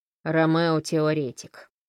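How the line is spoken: Snorting. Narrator (Russian): хмыкнул Фрэнк

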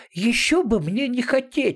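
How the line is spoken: Small animal's exclamation. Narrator (Russian): воскликнул маленький зверек

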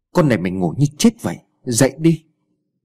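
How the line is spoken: Irritated snap. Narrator (Vietnamese): bà gắt lên

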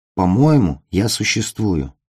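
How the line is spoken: Tired. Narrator (Russian): устало сказал он

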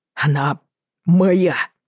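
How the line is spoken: Hoarse, through clenched teeth. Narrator (Russian): Прохрипел он сквозь стиснутые зубы

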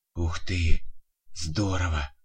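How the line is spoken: Boy's admiring whisper. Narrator (Russian): восхищенно прошептал мальчик

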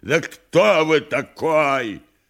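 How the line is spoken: Furious yell. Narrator (Russian): Совершенно свирепев, Никанор Иванович завопил

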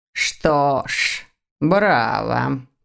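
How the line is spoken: Muttered, professor. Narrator (Russian): пробормотал профессор

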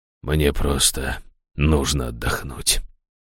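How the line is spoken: Hoarse father. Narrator (Russian): хрипло проговорил отец

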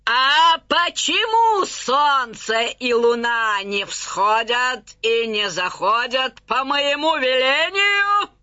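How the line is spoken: Wailing. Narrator (Russian): Увидев зарю, завопила

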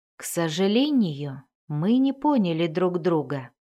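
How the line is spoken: Calm. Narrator (Russian): спокойно сказал Дзирт

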